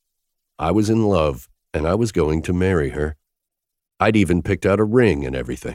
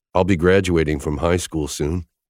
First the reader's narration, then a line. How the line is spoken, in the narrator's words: I began, my tone serious